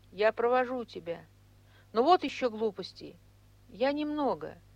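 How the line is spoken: Very timid. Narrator (Russian): Он очень робко сказал

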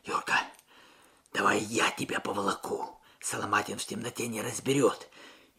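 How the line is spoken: Muffled whisper. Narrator (Russian): прижавшись губами к мокрому капюшону товарища, прошептал

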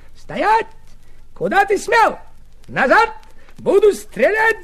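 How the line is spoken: Shouting. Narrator (Russian): закричал немец

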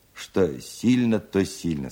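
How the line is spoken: Plain. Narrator (Russian): сказал Устименко

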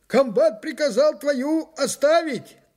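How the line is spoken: Hoarse shout on move. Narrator (Russian): крикнул мне на ходу осипший, как всегда, старшина

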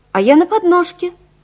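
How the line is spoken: Cheerful child's voice. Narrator (Russian): сказала малышка весело

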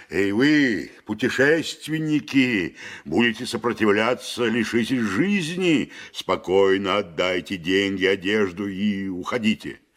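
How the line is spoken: Menacing shout. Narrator (Russian): грозно закричал

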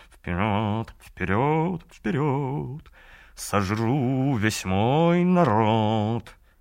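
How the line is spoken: Shameless purring song. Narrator (Russian): Мур-Авьед потеряв всякий стыд, стал мурлыкать песенку

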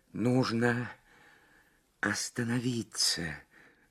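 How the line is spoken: Strained whisper. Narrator (Russian): с трудом прошептала Лабискви

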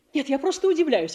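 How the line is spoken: Exclaimed. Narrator (Russian): воскликнула Татьяна Васильевна

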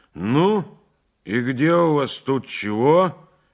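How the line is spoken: Gloomy. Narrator (Russian): говорил мрачно

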